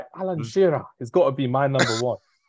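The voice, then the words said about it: Attempted Northern Geordie accent. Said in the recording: “What accent was that? ... my attempt of a Northern accent. Not a Geordie one, but Geordie ... It sounded better in your head, didn't it”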